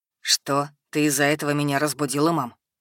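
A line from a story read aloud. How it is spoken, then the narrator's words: Grumbling into phone. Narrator (Russian): проворчал я в телефон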